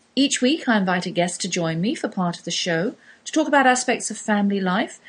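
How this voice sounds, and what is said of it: English London accent. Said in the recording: “I come to you with an English accent ... I do come from faraway East, London to be precise”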